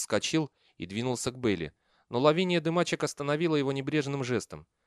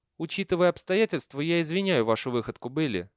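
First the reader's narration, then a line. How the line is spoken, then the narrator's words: Plain. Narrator (Russian): сказала она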